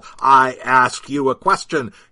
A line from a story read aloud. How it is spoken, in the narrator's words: he shouted in the man's face